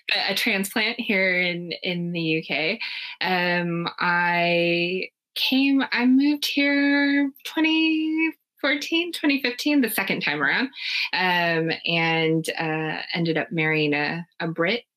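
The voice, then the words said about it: American accent. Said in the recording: “as you can tell, am American. By the accent”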